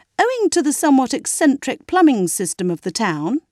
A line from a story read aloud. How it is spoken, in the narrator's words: he explained to Margot kindly